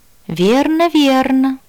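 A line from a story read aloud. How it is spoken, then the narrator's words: Purred. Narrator (Russian): мурлыкнула я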